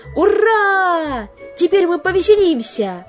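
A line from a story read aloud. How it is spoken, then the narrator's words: Joyful exclamation. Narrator (Russian): воскликнул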